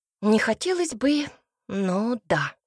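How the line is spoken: Exhaled. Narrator (Russian): выдохнул Цинта

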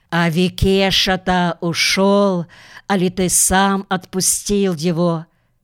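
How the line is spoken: Quiet strangely jubilant voice. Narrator (Russian): Аленка утихает и спрашивает странным ликующим тоном

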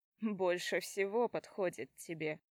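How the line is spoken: Laughing. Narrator (Russian): засмеялся

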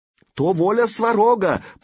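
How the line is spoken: Hasty shout. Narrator (Russian): поспешно крикнул он

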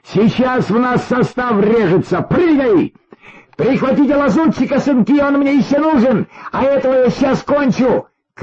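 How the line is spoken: Shouting. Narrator (Russian): крикнул Николай Николаевич

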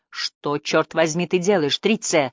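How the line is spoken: Plain. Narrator (Russian): спросил он

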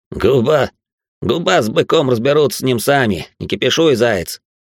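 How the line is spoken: Smirking grunt. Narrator (Russian): хмыкнул тот

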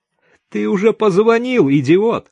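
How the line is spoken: Loud laughter. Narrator (Russian): захохотала Даша

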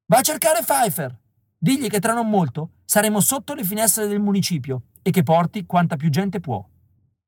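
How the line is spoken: Shouting loudest of all. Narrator (Italian): grida più alto di tutti

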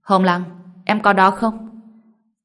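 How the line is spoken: Loud question. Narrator (Vietnamese): Anh lớn tiếng hỏi

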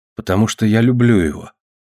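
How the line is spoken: Calm. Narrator (Russian): спокойно сказала Ева

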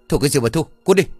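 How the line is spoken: Loud shout from indoors. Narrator (Vietnamese): Bảo đã từ trong nhà rồi hét lớn

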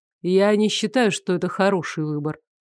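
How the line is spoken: Gentle interruption. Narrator (Russian): мягко оборвал Вольский

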